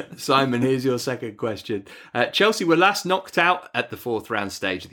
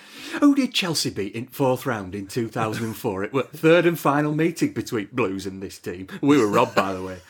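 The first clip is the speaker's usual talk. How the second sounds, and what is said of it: Imitates another person's voice. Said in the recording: “Can you ask that in a Neil Warnock voice ... Hello, Neil.”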